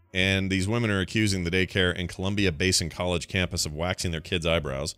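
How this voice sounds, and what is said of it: Usual voice. Nothing is said of it.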